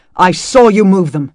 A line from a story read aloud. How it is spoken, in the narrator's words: he snapped, frustration rising